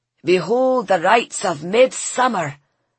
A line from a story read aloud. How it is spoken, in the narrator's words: boomed the green man through a megaphone